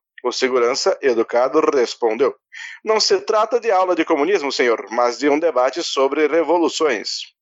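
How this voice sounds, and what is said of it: AM radio announcer voice. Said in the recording (Portuguese): “imitação do Maluf ... voz de locutor de rádio AM ... rádio novela”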